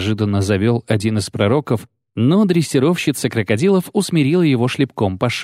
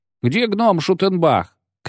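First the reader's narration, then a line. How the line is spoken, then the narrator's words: Shouted. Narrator (Russian): крикнул кто-то из поэтов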